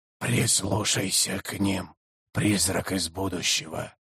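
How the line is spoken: Wheezing creature. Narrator (Russian): прохрипело существо

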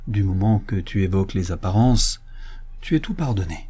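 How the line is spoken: Muttered through teeth. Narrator (French): murmura Madame Brice entre ses dents

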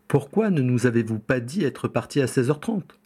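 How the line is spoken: Plain. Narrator (French): demanda Davenport

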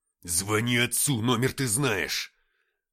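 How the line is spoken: Barked shout. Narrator (Russian): рявкнул Игнат

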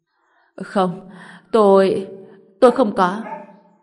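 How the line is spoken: Trembling denial. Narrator (Vietnamese): Bị nói trúng tim đen, Hạng Vấn Hàm toàn thân run rẩy

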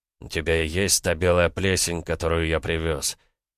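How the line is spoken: Quiet doubtful question. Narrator (Russian): тихо спросил Иван у лекаря, не надеясь, впрочем, на положительный ответ

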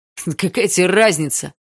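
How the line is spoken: Yelling. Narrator (Russian): заорал Вал

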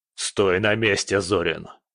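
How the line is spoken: Growling. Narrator (Russian): прорычал Воронов

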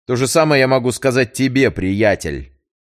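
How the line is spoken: Barking. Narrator (Russian): рявкнул я

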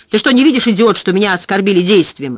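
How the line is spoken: Yell. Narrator (Russian): заорал Бенни

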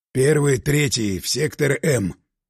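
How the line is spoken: Quiet, over radio. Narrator (Russian): негромко бросил в рацию майор Караев

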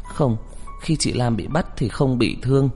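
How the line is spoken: Choked-up voice. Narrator (Vietnamese): Đường Tam liền tiến lên với giọng nghẹn ngào

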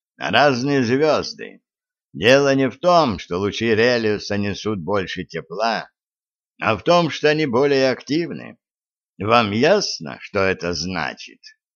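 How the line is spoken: Grumbling tone. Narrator (Russian): Он говорил ворчливым тоном

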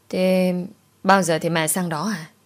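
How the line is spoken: Hesitant stammered question. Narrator (Vietnamese): Nhìn vẻ mặt tiếc nuối của bà, cô ấp úng rồi hỏi

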